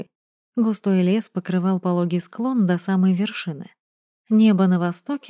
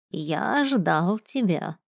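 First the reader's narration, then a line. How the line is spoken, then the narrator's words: Creaky voice. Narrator (Russian): проскрипел он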